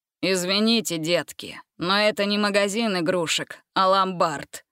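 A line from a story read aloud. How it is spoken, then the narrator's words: Unfriendly grumble. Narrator (Russian): неприветливо пробурчал он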